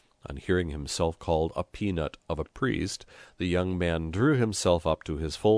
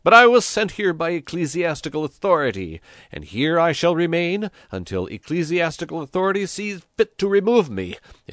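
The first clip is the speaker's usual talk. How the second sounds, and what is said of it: Shrill voice. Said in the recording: “he cried in a shrill voice”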